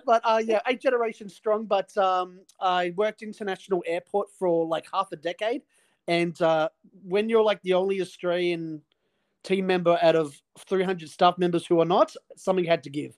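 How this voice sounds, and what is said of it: Slightly hybridized Australian accent. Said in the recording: “I detect a slight accent there ... fully Aussie ... hybridized”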